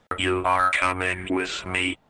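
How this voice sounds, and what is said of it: Robot character voice. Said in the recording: “this is your chance to do the voice work for this part of the story. So robot points right at Spark and he says”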